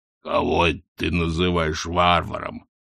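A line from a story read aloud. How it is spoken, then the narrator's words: Growl. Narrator (Russian): прорычал Хрун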